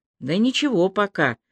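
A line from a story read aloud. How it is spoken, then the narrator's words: Failed attempt at soothing. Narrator (Russian): ответил он, пытаясь говорить успокаивающим тоном, что, впрочем, ему не удавалось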